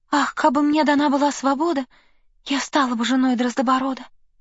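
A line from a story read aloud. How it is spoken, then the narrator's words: Sighing whisper. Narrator (Russian): вздохнула и прошептала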